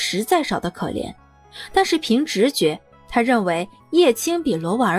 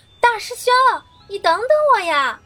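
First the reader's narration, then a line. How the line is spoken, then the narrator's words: Sudden shout from behind. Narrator (Chinese): 身后突然传来一声叫喊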